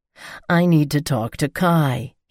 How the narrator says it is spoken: he grumbles

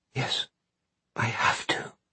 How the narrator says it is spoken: Holly whispers

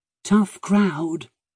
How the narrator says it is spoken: he muttered to Maddie

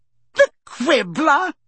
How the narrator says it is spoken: she said, cackling

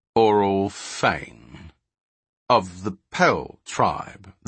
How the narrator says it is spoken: the tall thief repeated slowly

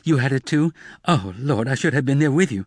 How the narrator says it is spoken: Emma exclaimed

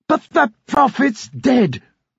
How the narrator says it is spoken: Richard nearly shouted

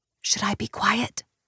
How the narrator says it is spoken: I whisper

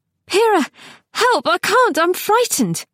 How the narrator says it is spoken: she gasped

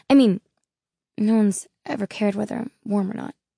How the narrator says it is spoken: he said, as his voice trailed off

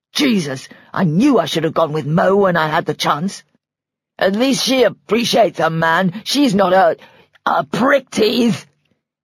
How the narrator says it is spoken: he spat

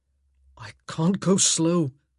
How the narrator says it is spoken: he grunted

